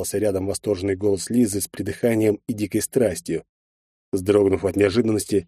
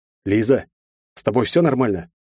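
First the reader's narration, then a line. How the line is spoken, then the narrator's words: Strained dry-throated croak. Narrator (Russian): с трудом прохрипел я резко пересохшим горлом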